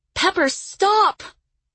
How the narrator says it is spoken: Lily cried

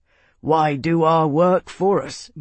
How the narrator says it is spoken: Marcus grunted

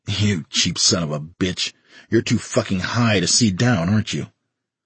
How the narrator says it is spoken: He laughed harshly and said

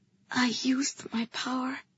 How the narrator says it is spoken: I whispered to him

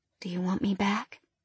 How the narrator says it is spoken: I asked softly

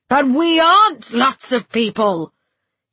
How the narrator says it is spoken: he roared

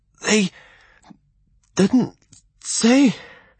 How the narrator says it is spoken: he wheezed

